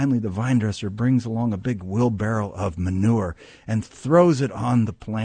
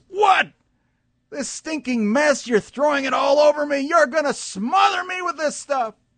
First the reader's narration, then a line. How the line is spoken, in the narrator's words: And the vine screams